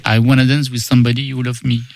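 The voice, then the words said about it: Singing with a marked accent. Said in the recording (French): “Quel accent.”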